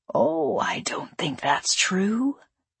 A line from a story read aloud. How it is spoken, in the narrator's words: Rizek said, lowering his voice to a near whisper